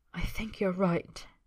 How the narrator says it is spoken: he whispers

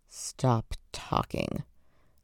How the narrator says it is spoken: Lan Zhan hissed

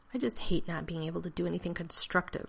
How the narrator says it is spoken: Rodney grumbled, not quite sotto voce

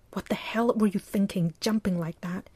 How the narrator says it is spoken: said in a loud, angry whisper

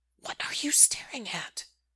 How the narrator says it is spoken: Derek hisses

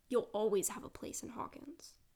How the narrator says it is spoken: he says fiercely

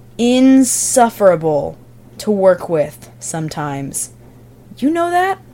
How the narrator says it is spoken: he says slowly

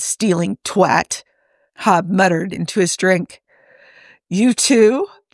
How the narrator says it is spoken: Joe asked with a bark of laughter

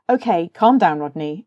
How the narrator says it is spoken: John said sharply

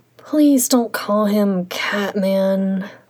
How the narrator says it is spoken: Xielian sighed

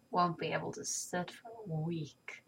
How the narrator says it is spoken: Tony mutters

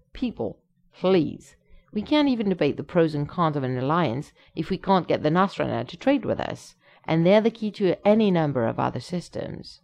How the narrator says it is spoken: quickly interjects

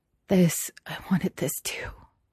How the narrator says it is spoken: Xie Lian whispered and then laughed

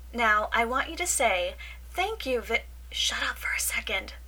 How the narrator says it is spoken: Michael hisses

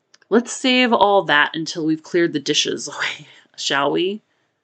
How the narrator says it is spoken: Kenji laughed

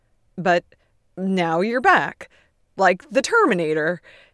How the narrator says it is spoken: Ted says brightly, grinning but not quite able to meet Beard's eye

